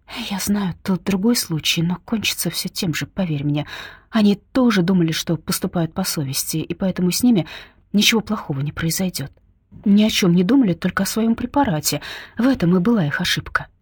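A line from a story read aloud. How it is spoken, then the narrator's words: Undertone. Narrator (Russian): говорит вполголоса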